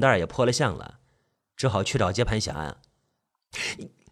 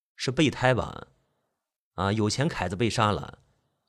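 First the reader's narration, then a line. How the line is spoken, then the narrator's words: Sarcastic. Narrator (Chinese): 小马自以为明白了，讽刺道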